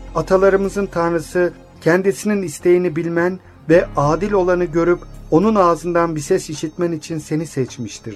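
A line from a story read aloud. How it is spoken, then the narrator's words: Plain. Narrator (Turkish): dedi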